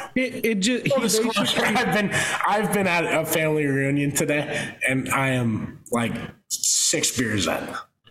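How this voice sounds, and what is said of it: Pittsburgh accent, slurred words. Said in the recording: “it just wasn't coming out in straight letters. It was coming out in cursive ... it's my Pittsburgh accent over here.”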